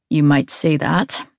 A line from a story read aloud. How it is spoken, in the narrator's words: Gray murmurs